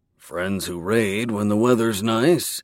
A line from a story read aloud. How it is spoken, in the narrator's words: Jor muttered